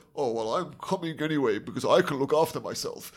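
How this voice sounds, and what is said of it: Imitates a game character's voice. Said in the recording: “That's a very good impression of him”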